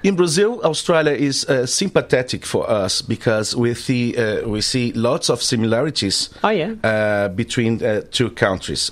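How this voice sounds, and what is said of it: Brazilian-accented English. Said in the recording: “I love your accent. It's so sexy.”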